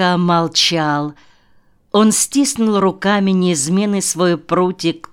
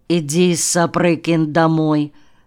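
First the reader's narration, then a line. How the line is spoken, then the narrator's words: Muffled voice. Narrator (Russian): глухо сказал он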